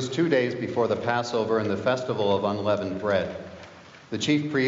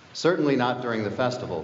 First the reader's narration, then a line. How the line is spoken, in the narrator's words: they said